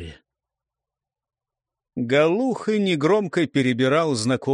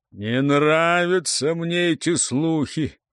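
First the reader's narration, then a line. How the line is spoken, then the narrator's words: Booming drone. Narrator (Russian): прогудел Телепеня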